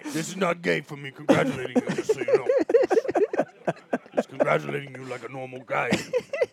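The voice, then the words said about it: Over-the-top imitation of another person. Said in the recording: “That's not really how he talks, but that's my impersonation ... a good impersonation has to be taken a little bit over the top”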